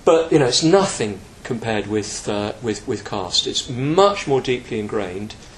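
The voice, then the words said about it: British accent. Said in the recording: “we Brits ... you can tell by my accent where I come from”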